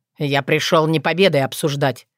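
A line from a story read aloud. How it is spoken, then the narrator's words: Sharp interruption. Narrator (Russian): резко оборвал ее дракон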